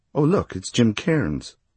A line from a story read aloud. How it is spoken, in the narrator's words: she broke off and said brightly